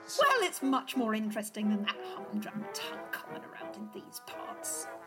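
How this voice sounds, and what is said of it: Affected English accent. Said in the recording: “Your accent doesn't... that English accent is so exotic”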